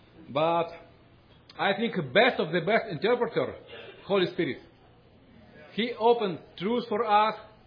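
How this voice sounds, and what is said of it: Heavy Russian accent in English. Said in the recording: “My English very poor. My Russian, my English accent very hard.”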